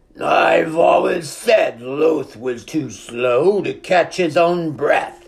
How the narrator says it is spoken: he sneered

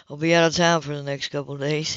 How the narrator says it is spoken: he continued, not lowering his voice

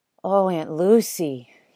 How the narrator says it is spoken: he sighed

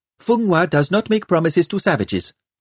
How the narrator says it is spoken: snapped the Keralan girl

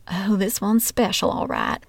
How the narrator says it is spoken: muttering under her breath

